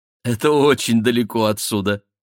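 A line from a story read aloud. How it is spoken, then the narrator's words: Cheerful. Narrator (Russian): сказала она весело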